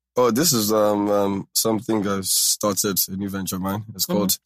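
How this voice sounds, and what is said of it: Changed accent, professional office voice. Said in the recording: “how come your accent changed? ... Your accent? ... is this your office voice? ... this is my professional voice”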